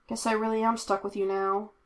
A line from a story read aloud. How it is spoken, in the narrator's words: Kane mumbled teasingly under her breath